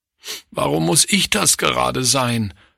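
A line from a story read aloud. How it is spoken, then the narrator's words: Sobbing. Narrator (German): schluchzte Klaus am ersten Abend nach einem Besuch zu Hause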